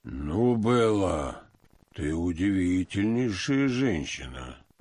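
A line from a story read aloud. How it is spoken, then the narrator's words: Deep bass voice. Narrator (Russian): пробасил Георгий Александрович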